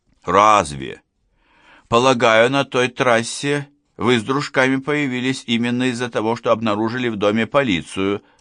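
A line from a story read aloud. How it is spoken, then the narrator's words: Calm. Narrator (Russian): спокойно произнес Гуров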